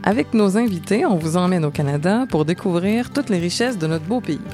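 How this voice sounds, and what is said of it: Montreal Québécois French accent. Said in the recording (French): “vous entendez mon accent, je suis de Montréal”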